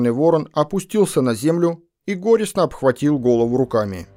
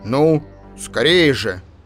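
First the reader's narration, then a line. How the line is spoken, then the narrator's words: Stern shout, raven. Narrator (Russian): сказал черный ворон и, видя нерешительность людей, прикрикнул грозно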